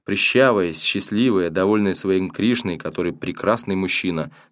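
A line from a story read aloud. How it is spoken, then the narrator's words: Plain. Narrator (Russian): сказала она Дженни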